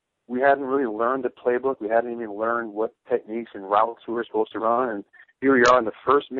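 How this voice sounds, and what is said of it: Usual voice. Nothing is said of it.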